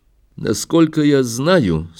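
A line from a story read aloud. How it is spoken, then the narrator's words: Calm. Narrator (Russian): спокойно ответил Лермонтов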